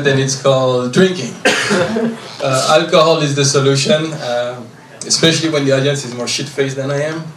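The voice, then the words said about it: French accent. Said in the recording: “because of my French accent, I kind of sound gay”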